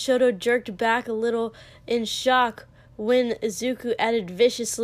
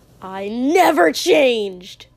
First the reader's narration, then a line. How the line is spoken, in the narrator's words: Katsuki spat